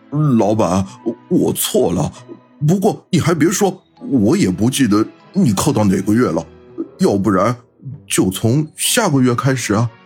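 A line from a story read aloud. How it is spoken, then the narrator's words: Mournful, downcast. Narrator (Chinese): 老飞哭丧着脸说道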